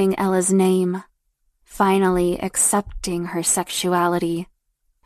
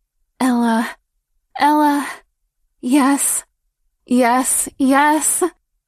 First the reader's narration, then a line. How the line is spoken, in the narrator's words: she moaned sharply